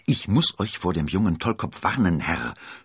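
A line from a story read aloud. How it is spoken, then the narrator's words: Self-important whisper. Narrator (German): flüsterte mit wichtiger Miene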